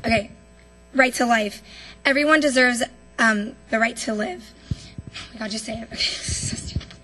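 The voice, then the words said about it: Shaky, nervous voice. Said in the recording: “my voice is a little shaky if you can't tell”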